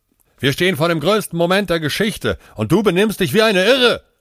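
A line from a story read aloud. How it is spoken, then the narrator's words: Shouting. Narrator (German): schrie Aman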